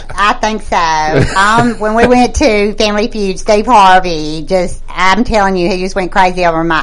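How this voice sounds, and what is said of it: Yankee American accent. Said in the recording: “the Yankee accent that she has ... this accent of mine ... She's definitely not from Boston.”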